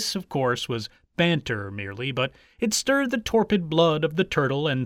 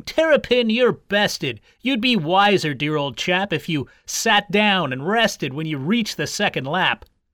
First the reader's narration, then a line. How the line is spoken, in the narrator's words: the hare resumed his banter, shouting